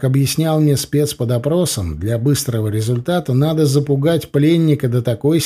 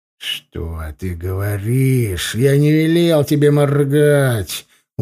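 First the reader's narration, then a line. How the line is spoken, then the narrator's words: Threatening hiss. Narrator (Russian): угрожающе прошипел я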